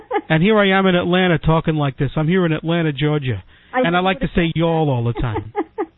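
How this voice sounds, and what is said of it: Northeastern New Jersey accent. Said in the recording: “you're from the Northeast ... you're from Jersey ... you and I, we got the accent”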